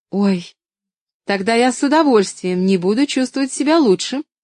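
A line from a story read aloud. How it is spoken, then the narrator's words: Exclaiming. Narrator (Russian): воскликнула Поллианна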